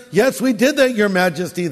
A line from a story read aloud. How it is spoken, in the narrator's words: said